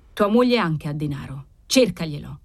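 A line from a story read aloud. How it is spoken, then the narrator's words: Cold. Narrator (Italian): riprese Cavalcanti freddamente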